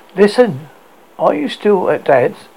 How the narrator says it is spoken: Sean asked, his tone friendly and much calmer than his conversation that morning

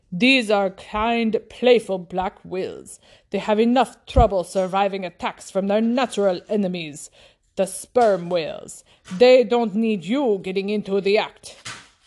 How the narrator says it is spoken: replied coldly

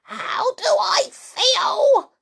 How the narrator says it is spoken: she cried

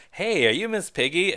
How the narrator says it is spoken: a kid comes up to her and excitedly says

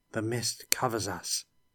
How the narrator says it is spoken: whispered Felix

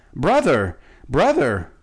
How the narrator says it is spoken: Shaggy Man cried aloud

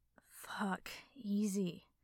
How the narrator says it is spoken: Katsuki hissed

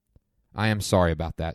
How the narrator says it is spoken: said Death

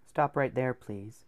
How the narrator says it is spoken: King Billy said softly

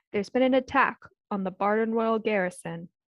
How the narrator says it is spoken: he boomed in an authoritative voice

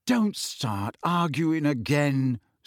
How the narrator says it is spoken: said Harry wearily

